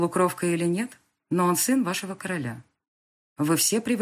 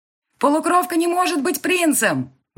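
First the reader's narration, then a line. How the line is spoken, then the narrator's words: Shouted out. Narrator (Russian): выкрикнул кто-то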